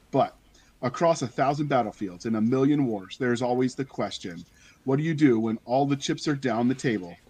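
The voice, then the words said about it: Dramatic movie trailer narrator voice. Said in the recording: “The movie trailer voice”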